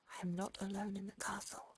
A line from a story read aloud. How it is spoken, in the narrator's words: The father ... he whispered